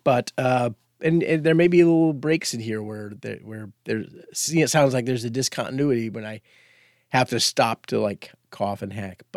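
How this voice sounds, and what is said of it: Congested, sick-sounding voice. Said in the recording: “I have a bit of a cold”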